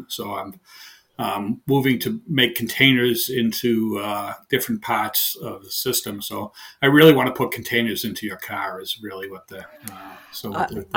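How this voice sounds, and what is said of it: Heavy Boston accent. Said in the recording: “I have a heavy Boston accent ... that strong accent”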